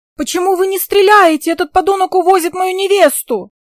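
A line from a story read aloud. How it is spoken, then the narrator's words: Wild yelling. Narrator (Russian): начинают что-то орать дурным голосом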